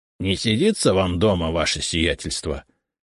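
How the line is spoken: Good-natured grumble. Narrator (Russian): добродушно проворчал Игнат

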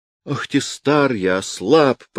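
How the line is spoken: Groaning. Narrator (Russian): простонал Гаврил Иванович

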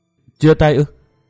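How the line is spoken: Sad anxious stammer to herself. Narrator (Vietnamese): Cô nàng đầy vẻ buồn thảm, lo âu, miệng ấp úng như nói với một mình

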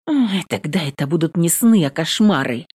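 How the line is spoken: Muttering. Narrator (Russian): Бормочу

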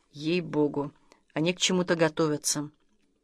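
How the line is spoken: Serious tone. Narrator (Russian): серьезным тоном сказал

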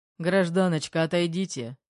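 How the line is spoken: Deep booming burly man. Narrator (Russian): прогудел один из амбалов

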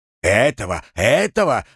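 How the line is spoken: Heated man's shout. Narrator (Russian): в запале закричал мужик

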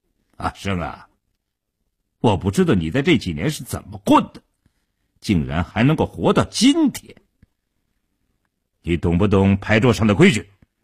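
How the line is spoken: Suddenly cold, hostile. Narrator (Chinese): 傻彪当即翻了脸，冷冷地说道

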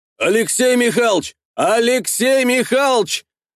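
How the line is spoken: Straining yell from street. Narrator (Russian): Орал надрывался на улице Ухватов, перебивая Всеволодовну

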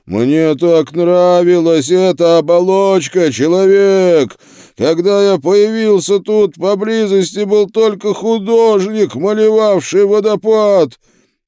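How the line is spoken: Shouted. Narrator (Russian): крикнул

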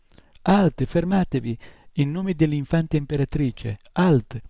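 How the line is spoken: Shout drowned by fighting noise. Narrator (Italian): la sua voce si perse nell'urlo e nello strepito dei due combattenti

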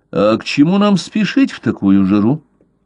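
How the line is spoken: Unusually calm question. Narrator (Russian): спросил Блад, доктор говорил на редкость спокойно

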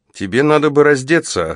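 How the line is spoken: Plain. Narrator (Russian): сказала она

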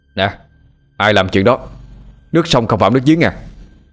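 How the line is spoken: Irritable snap. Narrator (Vietnamese): Tâm gắt

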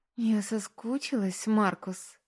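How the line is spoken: Whispered in reply. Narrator (Russian): прошептала она в ответ

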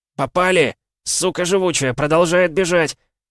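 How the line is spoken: Shout. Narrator (Russian): крикнул кто-то слева от меня

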